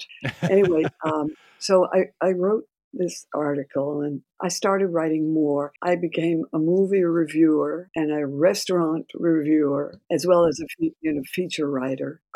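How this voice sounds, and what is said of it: Hoarse, strained voice. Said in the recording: “apologize for my voice, which I'm recovering from laryngitis”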